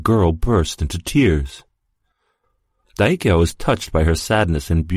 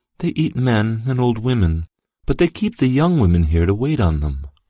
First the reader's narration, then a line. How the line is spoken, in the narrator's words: She blushed and said sadly